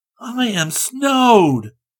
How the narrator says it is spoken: Rick exclaimed

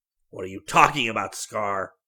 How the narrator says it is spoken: bellowed Wickham

